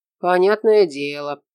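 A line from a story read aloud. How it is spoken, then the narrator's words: Grumble. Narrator (Russian): проворчал Шура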